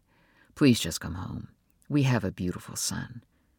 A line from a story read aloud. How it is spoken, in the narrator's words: said softly